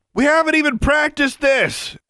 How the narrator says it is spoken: Alexandra shouted at him

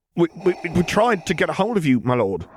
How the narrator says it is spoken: the officer stammered out

